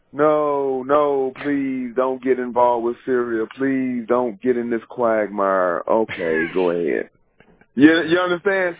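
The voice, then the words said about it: Imitates another person's voice. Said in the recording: “This right here is my imitation of President Obama talking on the phone with Putin.”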